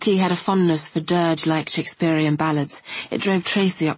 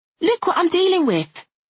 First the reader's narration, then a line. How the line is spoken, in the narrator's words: cried Tracy